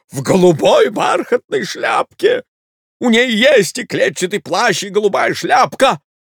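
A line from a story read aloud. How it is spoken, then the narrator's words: Insistent man shouting. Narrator (Russian): закричал неотвязчивый человек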